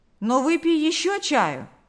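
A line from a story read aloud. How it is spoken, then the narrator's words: Exclaiming. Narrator (Russian): воскликнул Карп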